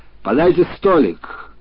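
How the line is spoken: Shouted. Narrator (Russian): хозяин крикнул

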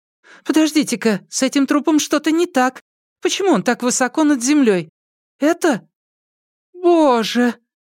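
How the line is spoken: Alarmed shriek. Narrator (Russian): визгам Тан Сяотан, на этот раз явно было что-то не так

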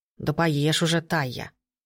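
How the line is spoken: Grumbling. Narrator (Russian): заворчал домовой

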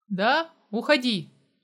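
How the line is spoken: Decisive tone. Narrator (Russian): решительным тоном произнес я

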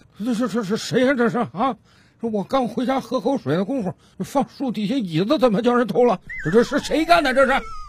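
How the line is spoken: Old man muttering to himself. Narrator (Chinese): 这老大爷 自言自语的嘟囔道

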